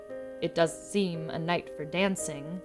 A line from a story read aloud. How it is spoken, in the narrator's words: he said